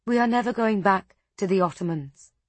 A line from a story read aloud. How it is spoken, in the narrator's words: she said